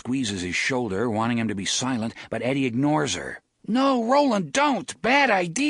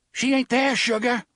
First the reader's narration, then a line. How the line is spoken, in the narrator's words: Susanna shouts at him